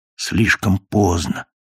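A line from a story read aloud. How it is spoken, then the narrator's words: Despairing whisper. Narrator (Russian): нашептывало отчаяние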